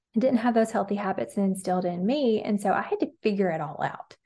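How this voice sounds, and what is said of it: Alabama accent. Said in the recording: “I'm from Alabama. You can probably hear my accent.”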